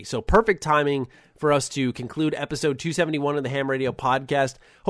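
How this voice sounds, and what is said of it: Slightly raspy voice. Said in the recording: “I'm now, just as we're wrapping this up, getting a little raspy.”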